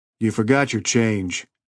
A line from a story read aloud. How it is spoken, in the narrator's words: he said dryly